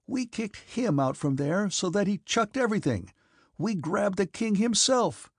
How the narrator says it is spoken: cried he, with eyes that glittered with fever

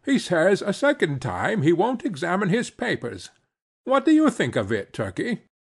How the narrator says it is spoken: exclaimed in an excited manner

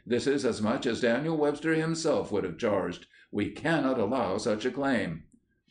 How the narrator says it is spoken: he exclaimed

